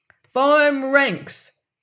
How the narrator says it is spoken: she cried in her shrill voice

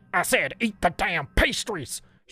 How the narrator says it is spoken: She barked again, as she spoke in anger

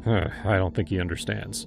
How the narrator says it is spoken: he muttered

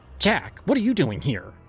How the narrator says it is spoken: She snapped, her voice carrying the sharpness of someone who no longer cared to hide their disdain

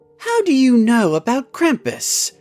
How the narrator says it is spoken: asked Cherry in a surprised voice

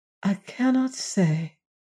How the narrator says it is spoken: answered the girl wearily

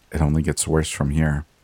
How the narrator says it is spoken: It was muttered under her breath

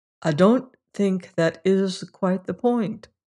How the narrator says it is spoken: answered Ledger quietly

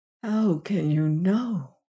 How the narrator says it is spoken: she whispered

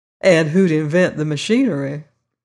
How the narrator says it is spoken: she laughed

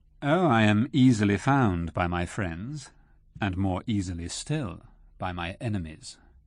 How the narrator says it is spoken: replied Rashleigh coolly

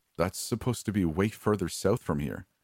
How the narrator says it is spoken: he said

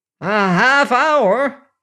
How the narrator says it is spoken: he roared

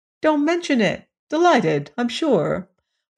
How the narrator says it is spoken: Edmund's kindly nature was charmed to see the cockatrice so much improved in health, and he said

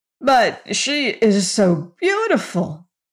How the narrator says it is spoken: exclaimed the Scarecrow, as if that fact disarmed all criticism

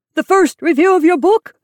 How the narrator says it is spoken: he cried

